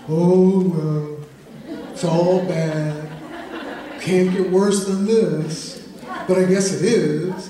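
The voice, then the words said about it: Gloomy, mopey cartoon donkey voice. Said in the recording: “I think I'll do my Eeyore imitation.”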